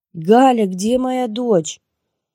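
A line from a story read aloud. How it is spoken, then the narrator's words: Screaming. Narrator (Russian): Закричала я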